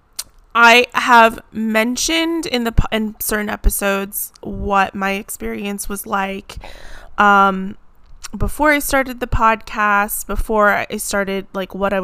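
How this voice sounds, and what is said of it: Hoarse, froggy voice. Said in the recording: “My voice is gonna be like a little bit of a frog, especially like I said, the symptoms and side effects of crying.”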